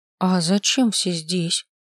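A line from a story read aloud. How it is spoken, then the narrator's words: Orc asking uncertainly. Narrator (Russian): спросила орка неуверенно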